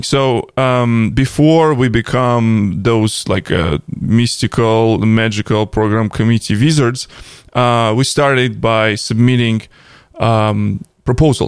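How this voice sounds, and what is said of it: Russian-accented English. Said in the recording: “Crazy Russians in DevOps podcast with Russian accent. English is a second language”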